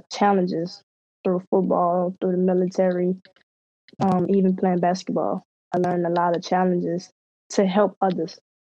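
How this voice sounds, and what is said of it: Slight Louisiana Southern accent. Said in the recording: “from Louisiana ... I could hear the accent coming out a little bit”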